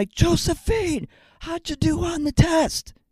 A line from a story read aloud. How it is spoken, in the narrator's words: I yell